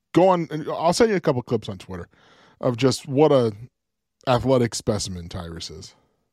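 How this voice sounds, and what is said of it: Hoarse, fading voice. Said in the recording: “I'm losing my voice here, apparently”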